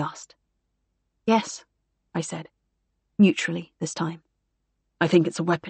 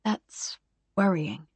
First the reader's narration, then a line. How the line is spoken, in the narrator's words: I said slowly